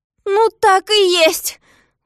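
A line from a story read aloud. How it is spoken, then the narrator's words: Exclaiming. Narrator (Russian): воскликнул Незнайка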